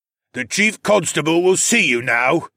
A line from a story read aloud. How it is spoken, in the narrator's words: an older elvenborn grunted